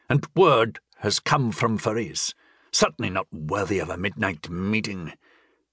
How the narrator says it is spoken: he added crossly

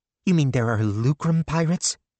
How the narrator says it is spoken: Melissa asked eagerly

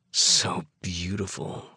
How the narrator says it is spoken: growl

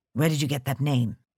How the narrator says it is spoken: he said hoarsely

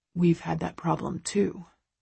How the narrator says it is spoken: Christian murmurs

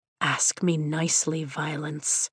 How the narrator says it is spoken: he whispers

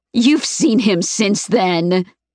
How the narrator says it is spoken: she sneers

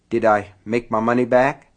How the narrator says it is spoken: Keaton asked anxiously

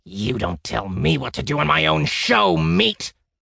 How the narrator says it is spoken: The maestro growled

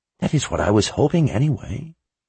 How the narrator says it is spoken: Zed said in a quiet voice

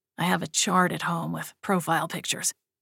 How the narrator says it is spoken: he whispered

